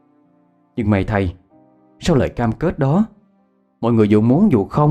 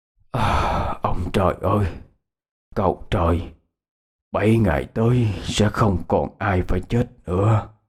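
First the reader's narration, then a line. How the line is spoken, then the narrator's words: Whispered. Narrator (Vietnamese): Thầy thì thầm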